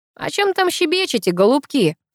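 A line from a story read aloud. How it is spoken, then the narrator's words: Cheerful. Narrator (Russian): Весело подал голос Буравин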